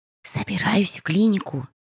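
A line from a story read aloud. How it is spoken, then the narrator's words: Hushed cautious whisper. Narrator (Russian): шепотом ответила Шарли, как будто надеясь, что если не говорить громче, он снова уснет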